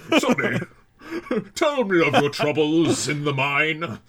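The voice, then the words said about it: Old British man voice. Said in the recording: “he takes on this old Englishman when your accent goes, like, too far ... It's just like this old British man.”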